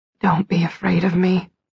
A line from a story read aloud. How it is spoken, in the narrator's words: he whispered